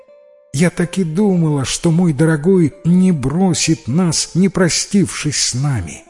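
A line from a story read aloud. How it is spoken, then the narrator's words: Tender cooing, motherly. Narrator (Russian): проворковала голубка-мать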